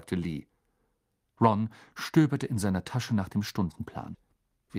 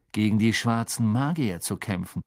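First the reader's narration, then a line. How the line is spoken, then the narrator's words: Plain. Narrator (German): sagte Fred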